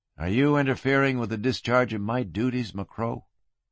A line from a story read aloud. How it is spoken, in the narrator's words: His voice sounded flat